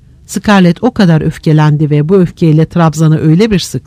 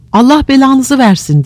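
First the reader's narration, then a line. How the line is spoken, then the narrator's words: Shouted. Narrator (Turkish): diye bağırdı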